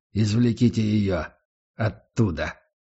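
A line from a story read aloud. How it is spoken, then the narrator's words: Strained forced calm. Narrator (Russian): выдавил из себя Гатриан, прилагая титанические усилия, чтобы выглядеть спокойным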